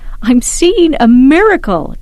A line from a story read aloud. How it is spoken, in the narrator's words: Chris shouted